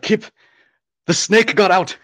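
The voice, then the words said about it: Poor imitation Irish accent. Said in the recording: “That's not a good Irish accent”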